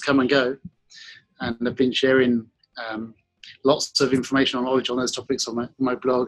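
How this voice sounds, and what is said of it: British accent with slight Australian twang. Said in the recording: “I'm from Kent in England, and I have a little bit of Australian accent ... I'm picking up the British with the little Australian twang.”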